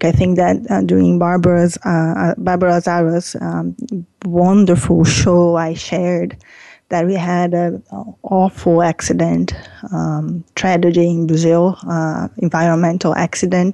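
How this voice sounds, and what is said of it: Emotional, tearful voice. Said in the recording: “I get emotional. I sometimes have tears in my throat, and today is one of those days. I'm really sad”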